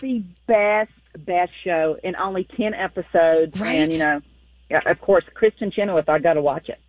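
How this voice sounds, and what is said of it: Southern US accent. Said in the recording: “I love your accent ... I'm from North Carolina, but I spent my summers in Texas”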